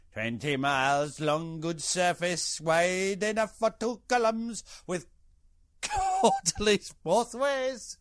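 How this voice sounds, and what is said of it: Mixture of put-on accents. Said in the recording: “that was a mixture of accents for you”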